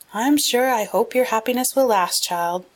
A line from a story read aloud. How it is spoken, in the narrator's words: sighed Mrs